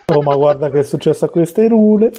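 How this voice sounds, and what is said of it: Put-on rustic Roman hills accent. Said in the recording (Italian): “Le pronunce le hanno sbagliate... con un accento un po' dei colli”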